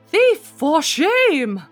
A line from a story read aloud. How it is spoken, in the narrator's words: a voice cried